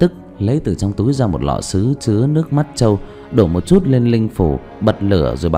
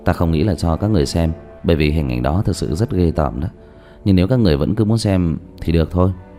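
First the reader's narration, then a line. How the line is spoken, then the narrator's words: Sighing speech. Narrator (Vietnamese): Diệp Thiếu Dương thở dài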